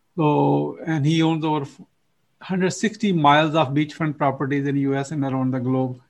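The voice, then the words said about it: Pakistani-accented English. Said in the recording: “I'm originally from Pakistan. You probably know my accent is not from, you know, it's imported here.”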